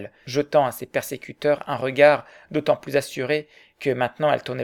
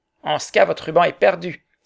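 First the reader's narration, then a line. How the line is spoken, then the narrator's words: Crowd exclaiming in unison. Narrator (French): s'écrièrent d'une seule voix tous les assistants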